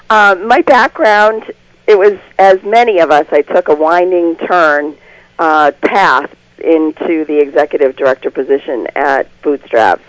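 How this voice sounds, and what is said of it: Congested voice from a cold. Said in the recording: “I have a cold,”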